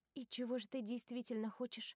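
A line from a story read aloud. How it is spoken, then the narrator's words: Quiet question. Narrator (Russian): тихо спрашиваю я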